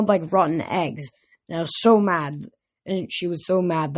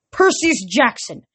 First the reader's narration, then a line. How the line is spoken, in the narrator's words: yelled, storming